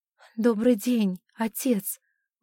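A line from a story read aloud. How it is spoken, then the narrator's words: Agitated, breathless. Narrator (Russian): в волнении выдохнула Александра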